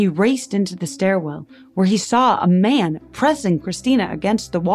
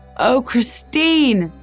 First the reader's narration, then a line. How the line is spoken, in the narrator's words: Dennis Muldoney shouted